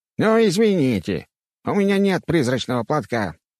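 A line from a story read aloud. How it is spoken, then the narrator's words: Ghostly grumble. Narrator (Russian): пробурчал призрак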